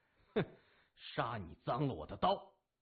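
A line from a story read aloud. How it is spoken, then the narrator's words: Cold. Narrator (Chinese): 木子冷声说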